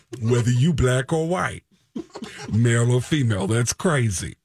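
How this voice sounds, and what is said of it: Bronx accent, Tracy Morgan impression. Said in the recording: “I never got an accent from the Bronx, and everybody in the Bronx sounds like Tracy Morgan ... Everybody in the Bronx talk like this”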